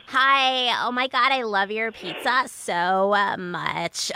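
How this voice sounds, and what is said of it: Young woman speaking with vocal fry. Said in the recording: “the vocal fry, the girls with the vocal fry ... a girl with vocal fry calling a pizza place.”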